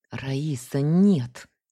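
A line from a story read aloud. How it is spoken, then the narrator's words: Angry hiss. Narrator (Russian): сердито прошипела я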